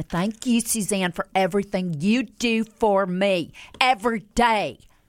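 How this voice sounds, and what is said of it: Paula Deen impression accent. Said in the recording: “what's that accent that you use ... the cook, the chef ... Paula Dean ... in that voice”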